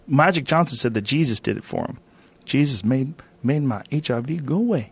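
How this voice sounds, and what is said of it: Bad impression of another person's voice. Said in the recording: “It's a bad Magic Johnson accent. It's a horrible impression.”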